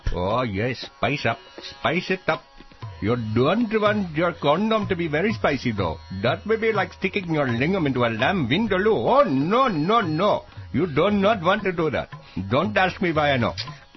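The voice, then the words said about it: Over-the-top Indian accent. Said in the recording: “please don't do an over-the-top Indian accent with Indian music in the background talking about tandoori chicken and chutney”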